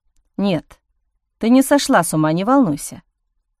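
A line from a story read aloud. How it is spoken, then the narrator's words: Quiet. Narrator (Russian): тихо произнес Ник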